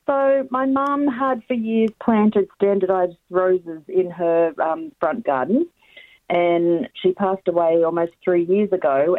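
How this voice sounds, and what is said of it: Strained, hoarse voice. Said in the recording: “Excuse my voice. It decided it doesn't want to play today”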